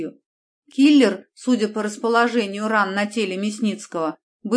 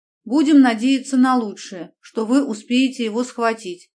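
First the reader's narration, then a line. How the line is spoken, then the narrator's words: Sad smiling voice. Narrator (Russian): грустно улыбнулась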